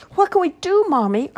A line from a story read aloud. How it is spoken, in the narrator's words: Archie cried out